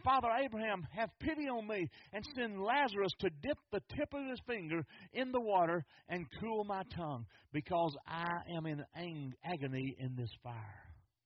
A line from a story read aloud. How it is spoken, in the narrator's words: He cried out to Abraham